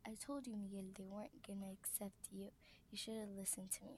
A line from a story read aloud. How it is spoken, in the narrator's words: says Esperanza